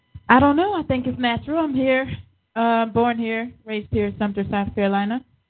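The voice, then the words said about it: Slight regional accent. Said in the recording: “I sense a touch of uh, of an accent there on you”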